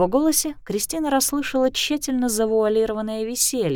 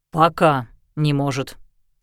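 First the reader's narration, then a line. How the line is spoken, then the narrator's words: Stern correction. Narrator (Russian): строго поправил Лещинский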